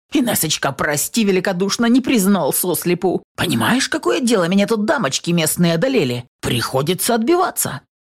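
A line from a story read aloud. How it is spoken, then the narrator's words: Menacing bark. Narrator (Russian): Ведьма, не убирая грозного выражения лица, рявкнула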